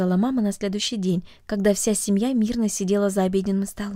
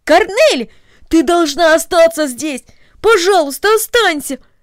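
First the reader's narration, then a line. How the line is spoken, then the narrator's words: Exclaiming. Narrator (Russian): воскликнул Дино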